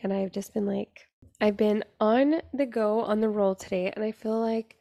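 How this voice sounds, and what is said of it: Raspy voice. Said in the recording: “sorry if my voice sounds like so raspy. ... that's what happens whenever it's late at night.”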